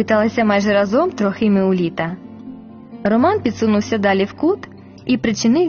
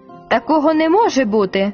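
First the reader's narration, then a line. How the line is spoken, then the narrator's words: Firm and angry. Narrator (Ukrainian): сказав твердо і сердито Трохим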